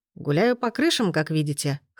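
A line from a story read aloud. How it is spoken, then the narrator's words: Laughing. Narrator (Russian): хохотнул Дамьен Дарч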